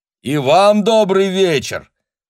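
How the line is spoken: Glad shouted reply. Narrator (Russian): обрадованно крикнул в ответ Таниэль

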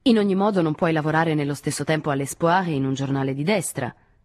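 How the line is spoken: Curt, dry voice. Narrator (Italian): disse Henri con voce secca

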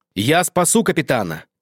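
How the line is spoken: Shout. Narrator (Russian): крикнул он

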